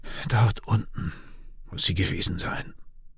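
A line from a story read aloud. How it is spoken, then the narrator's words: Broken voice. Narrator (German): sagt mit gebrochener Stimme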